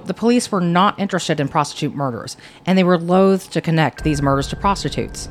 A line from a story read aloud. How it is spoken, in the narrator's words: Pemberton says